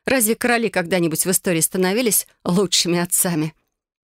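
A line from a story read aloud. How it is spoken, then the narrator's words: Laughing as if joking. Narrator (Russian): Бастиан рассмеялся, словно принял это за шутку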